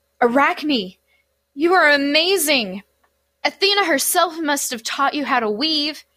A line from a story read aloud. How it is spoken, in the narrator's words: One of the nymphs gasped